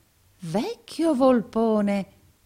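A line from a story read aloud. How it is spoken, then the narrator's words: Exclamation. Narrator (Italian): esclamò il pari Verisoft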